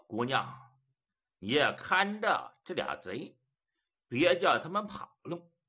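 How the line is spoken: With a smile. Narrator (Chinese): 毕振远一笑

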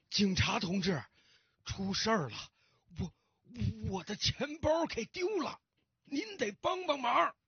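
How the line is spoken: Hurried and breathless. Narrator (Chinese): 老先生 急急忙忙的喘着粗气对警察说

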